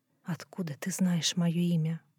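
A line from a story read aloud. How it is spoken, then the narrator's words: Whisper. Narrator (Russian): прошептала она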